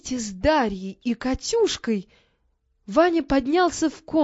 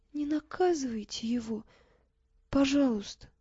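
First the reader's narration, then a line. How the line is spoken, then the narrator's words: Tearful, barely audible whisper. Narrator (Russian): Катя еле слышно сквозь слезы прошептала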